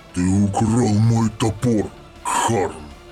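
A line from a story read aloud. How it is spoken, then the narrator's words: Growl. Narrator (Russian): зарычал Ангрон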